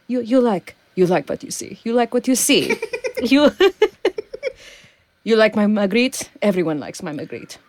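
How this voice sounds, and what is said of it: Attempted French accent, not very good. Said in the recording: “My French accent isn't that good. I'm better with... All my accents turn into either Irish or Russian after a while... I can attempt the French”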